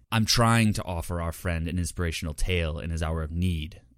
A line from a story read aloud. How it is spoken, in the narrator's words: Ziomera growled